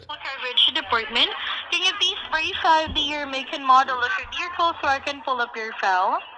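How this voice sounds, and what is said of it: English accent with possible Swedish hint. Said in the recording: “she sounded like she was English ... Of English descent, and then she sounded like she was maybe from Sweden ... Her accent was poking through there”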